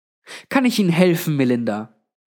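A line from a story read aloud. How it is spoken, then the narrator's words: Plain. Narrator (German): fragte Granny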